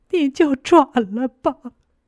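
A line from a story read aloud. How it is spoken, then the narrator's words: Pitiful crying. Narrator (Chinese): 她就可怜巴巴的，一边哭一边和我说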